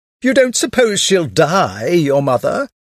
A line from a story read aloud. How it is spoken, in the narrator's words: exclaimed Madame Verdurin bitterly